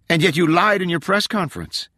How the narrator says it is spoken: called out over her shoulder

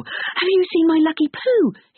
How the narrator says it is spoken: he asked frantically

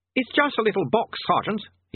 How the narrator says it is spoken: he snapped

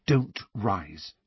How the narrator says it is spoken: Hermione whispered imploringly to Harry and Ron

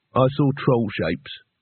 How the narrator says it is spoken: said flatly

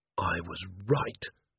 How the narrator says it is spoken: murmured Carrot

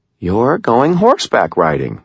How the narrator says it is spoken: Molly said in a reasonable tone of voice

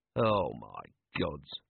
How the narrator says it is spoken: murmured Vimes

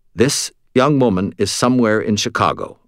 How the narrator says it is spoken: I said

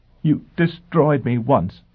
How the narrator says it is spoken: she said in choked tones

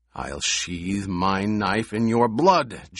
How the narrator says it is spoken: Jameis snarled

